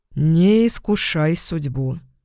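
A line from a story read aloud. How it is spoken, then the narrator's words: Grim advice. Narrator (Russian): мрачно посоветовал Яспер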